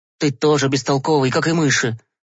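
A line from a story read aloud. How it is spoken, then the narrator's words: Sighing. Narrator (Russian): Вздохнул Гешка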